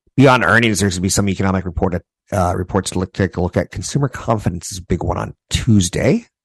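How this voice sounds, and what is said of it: Voice in poor condition. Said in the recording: “My voice is just crap today.”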